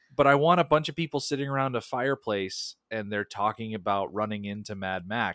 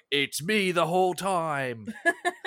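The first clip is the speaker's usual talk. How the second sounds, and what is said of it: Imitates another person's voice, badly. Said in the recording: “terrible Tom Hardy impression”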